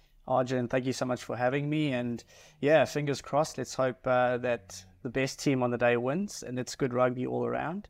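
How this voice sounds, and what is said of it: South African accent. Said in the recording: “if you haven't picked it by the accent, as you hear ... he is a South African”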